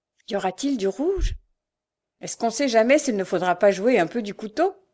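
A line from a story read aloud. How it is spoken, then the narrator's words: Cold reply. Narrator (French): répondit froidement le bandit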